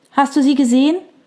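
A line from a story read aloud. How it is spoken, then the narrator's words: Calling from the doorway. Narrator (German): rief Fiona McAllen von der blauen Tür aus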